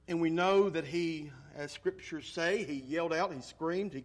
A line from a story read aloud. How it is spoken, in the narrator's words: he cried unto the Lord